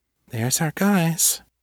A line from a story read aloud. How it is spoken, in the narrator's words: Callie murmured, so soft that Will almost didn't hear her over the pounding music